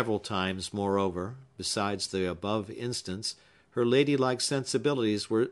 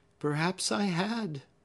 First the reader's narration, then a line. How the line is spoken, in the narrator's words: said Hepzibah, heaving a deep sigh